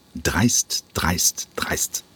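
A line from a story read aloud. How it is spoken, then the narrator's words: Muttered while walking. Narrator (German): murmelte der Intendant im Gehen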